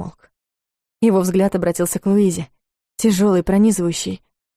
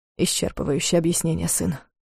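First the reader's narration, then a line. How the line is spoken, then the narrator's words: Confused mutter. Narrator (Russian): пробормотал Дарс, и в его голосе послышалась растерянность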